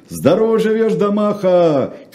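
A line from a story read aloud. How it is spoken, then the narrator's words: Crowd shouting in unison. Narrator (Russian): крикнули в один голос граждане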